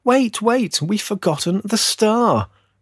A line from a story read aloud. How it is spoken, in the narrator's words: cried a little girl